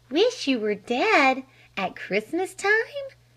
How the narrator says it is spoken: cried Flame

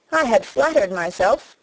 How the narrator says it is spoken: cried young Wharton with a laugh

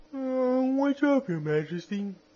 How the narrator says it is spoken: he asked with a wide yawn, for he had just wakened

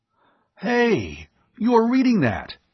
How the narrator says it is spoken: he cried

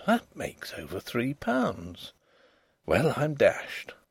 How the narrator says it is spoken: he murmured

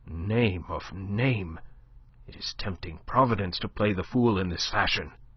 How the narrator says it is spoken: Le Chapelier swore softly, muttering

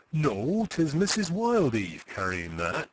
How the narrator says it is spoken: he answered

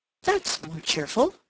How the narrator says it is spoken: she exclaimed

